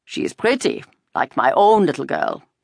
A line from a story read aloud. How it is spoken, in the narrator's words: the tall one said in a more pleasant voice